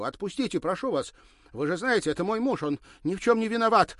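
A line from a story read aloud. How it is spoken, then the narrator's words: Desperate shout. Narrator (Russian): отчаянно кричала она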